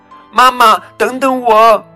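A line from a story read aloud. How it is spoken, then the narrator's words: Loud cry. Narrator (Chinese): 它大声叫道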